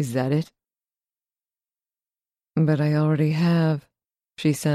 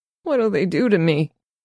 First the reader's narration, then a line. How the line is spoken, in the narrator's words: He squeaks